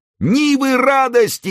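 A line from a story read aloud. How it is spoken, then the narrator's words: Crowd roaring louder. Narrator (Russian): еще громче проревела толпа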